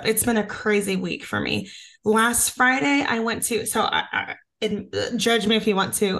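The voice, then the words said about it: Hoarse voice. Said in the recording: “I sound so hoarse”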